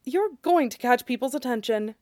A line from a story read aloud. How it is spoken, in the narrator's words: Draco murmured